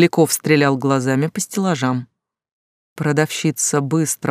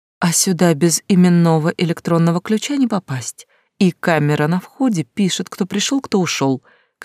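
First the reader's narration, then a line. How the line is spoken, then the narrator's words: Frightened young woman's voice. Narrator (Russian): каким-то испуганным голосом сказала девушка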